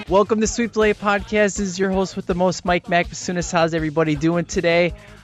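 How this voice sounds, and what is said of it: Voice in bad shape. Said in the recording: “As you can tell, my voice is terrible”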